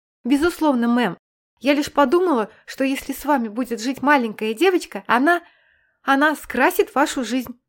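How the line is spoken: Timid babble. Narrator (Russian): пролепетала Нэнси

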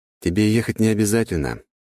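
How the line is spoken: Soothing tone. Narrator (Russian): успокаивающим тоном произнес я

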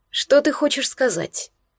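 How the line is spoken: Calm question. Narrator (Russian): Так же спокойно спросил Безногий

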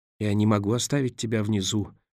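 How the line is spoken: Mumble. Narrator (Russian): пробормотал он

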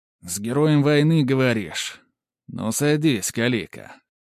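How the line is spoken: Snorting. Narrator (Russian): хмыкнул Борис Павлович

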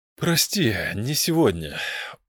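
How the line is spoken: Weary dismissal. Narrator (Russian): устало отмахнулся Медариен

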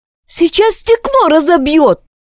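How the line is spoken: Sharp cry. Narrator (Russian): вскрикнула Крис

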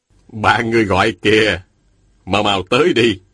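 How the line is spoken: Smiling. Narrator (Vietnamese): Thôi Thu Sơn mỉm cười nói

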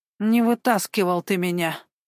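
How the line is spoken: Mumbled. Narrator (Russian): Промямлил Николай

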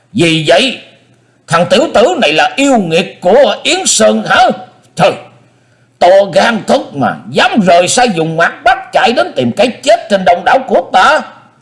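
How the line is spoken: Roar. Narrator (Vietnamese): Dương Phong Lai gầm lên

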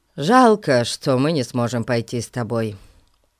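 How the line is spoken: Sighing. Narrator (Russian): вздохнул Ларри

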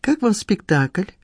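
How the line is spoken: Polite social tone. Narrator (Russian): проговорила она светским тоном

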